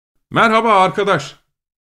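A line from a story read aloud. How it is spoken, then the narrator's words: Shouting. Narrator (Turkish): diye bağırdı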